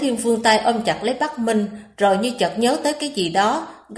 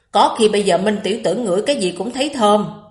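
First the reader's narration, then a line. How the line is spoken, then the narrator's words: Muttering. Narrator (Vietnamese): Bắc Thần không nhịn được mà lẩm bẩm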